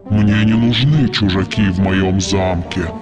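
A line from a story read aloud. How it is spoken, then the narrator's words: Growling monster. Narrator (Russian): прорычало чудовище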